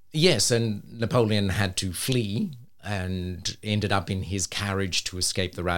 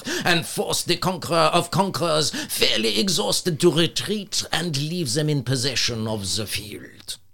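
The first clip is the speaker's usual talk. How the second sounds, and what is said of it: Put-on French accent. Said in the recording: “If you will excuse my French accent.”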